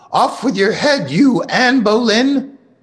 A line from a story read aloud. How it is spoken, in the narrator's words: my sister shouted